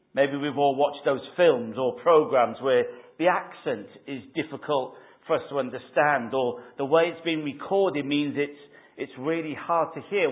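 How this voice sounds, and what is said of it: Softened Welsh accent. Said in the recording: “my Welsh accent was a, a lot stronger then. I've kind of, it's been Essex and Portsmouthified over the years”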